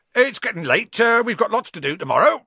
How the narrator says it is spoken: said Hagrid loudly

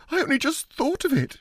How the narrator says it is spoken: she said hysterically

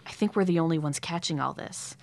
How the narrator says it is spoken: He whispered

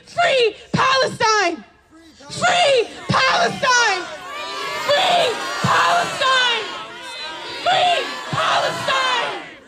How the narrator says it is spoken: With every muscle in his body, he screamed

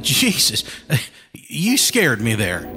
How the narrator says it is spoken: Jefferson said with a nervous laugh

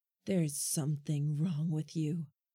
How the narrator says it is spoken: told, her voice low, breath hot on my face

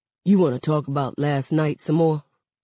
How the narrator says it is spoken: asks

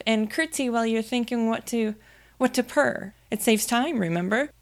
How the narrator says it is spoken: Alice cried with a merry laugh

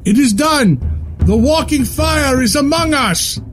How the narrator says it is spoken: even the stone golem yelling

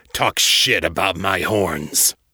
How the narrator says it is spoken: snarled

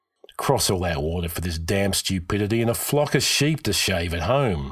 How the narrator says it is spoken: Hakon grumbled

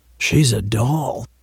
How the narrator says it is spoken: said with a near whisper

